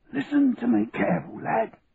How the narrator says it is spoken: said, between gasps for breath

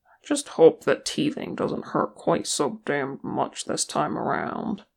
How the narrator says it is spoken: he grumbled

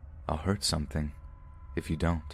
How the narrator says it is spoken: Then, in a completely calm voice, he said

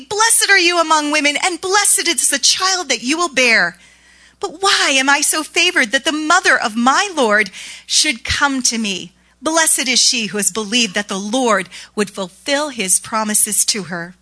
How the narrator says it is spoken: She exclaimed loudly and proudly

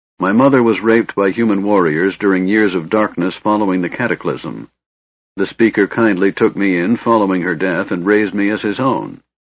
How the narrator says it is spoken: Tanis said harshly

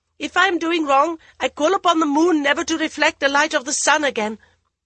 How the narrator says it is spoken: she was surprised at the rage in her own voice, as she demanded loudly

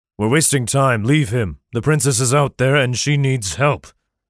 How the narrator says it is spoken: growled Sir Chambers

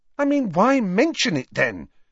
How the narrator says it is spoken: said impatiently

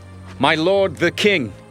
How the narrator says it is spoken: David called out to Saul

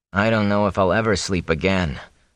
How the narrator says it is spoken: Perrin sighed

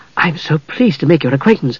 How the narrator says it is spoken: she said breathlessly

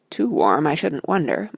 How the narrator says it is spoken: muttered Sam to Frodo

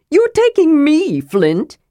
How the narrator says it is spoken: He cried in excitement

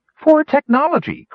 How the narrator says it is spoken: cried Rainspot as he tipped over the edge

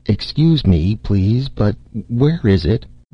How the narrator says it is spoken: the Martian said hesitantly

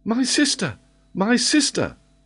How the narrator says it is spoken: cried Robert

